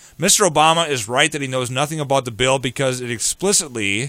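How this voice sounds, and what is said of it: Usual voice. Nothing is said of it.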